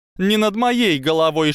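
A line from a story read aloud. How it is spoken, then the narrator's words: Shouting hat. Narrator (Russian): шляпа крикнула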